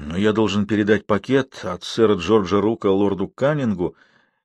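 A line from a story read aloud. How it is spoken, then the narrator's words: Hesitant objection, young man. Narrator (Russian): неуверенно возразил молодой капитан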